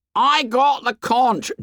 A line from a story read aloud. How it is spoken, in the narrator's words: Jack turned fiercely